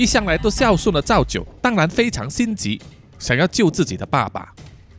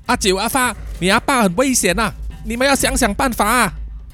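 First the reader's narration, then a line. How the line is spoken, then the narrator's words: Straining woman shouting. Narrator (Chinese): 赵大婶拼命支撑着赵阿狗的身体，然后一面大喊说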